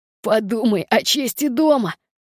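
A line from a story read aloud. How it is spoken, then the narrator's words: Laughing. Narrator (Russian): Я рассмеялась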